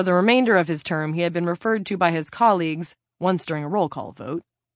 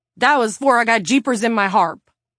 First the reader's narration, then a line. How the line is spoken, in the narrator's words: the representative blurted